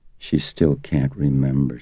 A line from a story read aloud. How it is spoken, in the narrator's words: she said gently